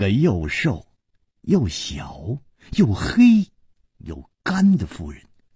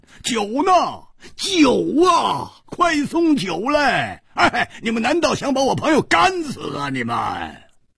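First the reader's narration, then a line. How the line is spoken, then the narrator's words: Loud shout. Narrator (Chinese): 他大声喊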